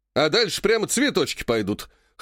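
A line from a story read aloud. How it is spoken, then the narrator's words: Smirking snort. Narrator (Russian): хмыкнул Греков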